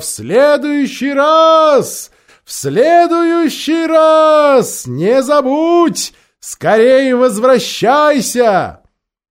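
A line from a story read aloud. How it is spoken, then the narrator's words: Shouted. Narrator (Russian): закричала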